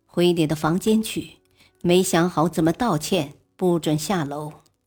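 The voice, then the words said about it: Cold stern voice. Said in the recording (Chinese): “冰冷的声音”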